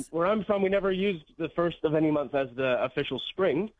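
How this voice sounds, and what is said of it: Canadian English accent. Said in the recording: “as you can maybe tell from my accent ... I am from Canada”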